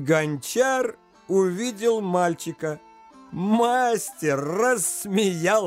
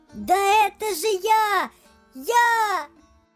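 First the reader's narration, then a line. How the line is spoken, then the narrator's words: Louder shout. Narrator (Russian): Ярты крикнул еще громче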